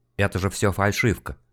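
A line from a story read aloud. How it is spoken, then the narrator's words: Said quietly. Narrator (Russian): тихо сказал Хмелевский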